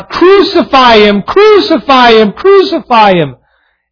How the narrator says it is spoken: Those who had cried out

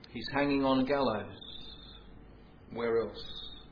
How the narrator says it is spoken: a voice softly within him saying

